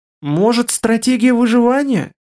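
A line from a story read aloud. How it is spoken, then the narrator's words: Uncertain suggestion. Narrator (Russian): неуверенно предположил Шарик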